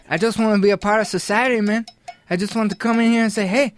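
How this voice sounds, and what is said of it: Thick Southern US accent. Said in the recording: “You still got the Southern ... My Southern accent's so thick”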